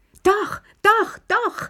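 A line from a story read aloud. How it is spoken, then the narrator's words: Shouting excitedly. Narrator (German): schrie Lilli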